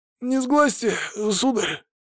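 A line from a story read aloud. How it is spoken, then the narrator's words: Husky, nervous. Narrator (Russian): подал сиплый голос Рябой, чей лоб покрывали мелкие капельки пота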